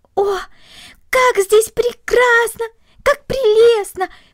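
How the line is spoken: Delighted exclamation. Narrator (Russian): воскликнула Корнели, полное восхищение

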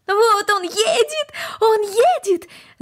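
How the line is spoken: Excited shout. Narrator (Russian): закричала Корнели

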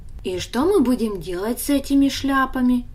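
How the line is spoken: Plain question. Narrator (Russian): спросил Даня

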